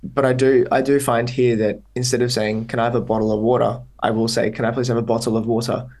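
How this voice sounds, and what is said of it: Mild Australian accent. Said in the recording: “full Australian kind of accent ... I don't speak with my full-on Australian accent ... my accent is not like crazy Australian”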